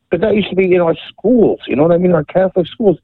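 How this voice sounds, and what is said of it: Philadelphia accent. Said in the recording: “It's always good to hear that Philly accent.”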